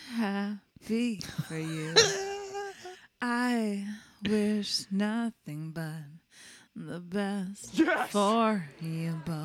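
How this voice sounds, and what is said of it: Breathy imitation of another person's voice. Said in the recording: “you had the first breathy part down ... you would have to like really project ... It's a good impression”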